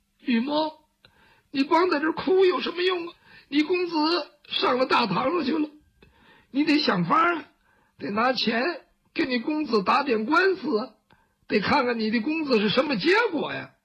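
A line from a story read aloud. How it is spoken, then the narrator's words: Crying, talking to oneself. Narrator (Chinese): 哭着哭着自个儿跟自个儿说话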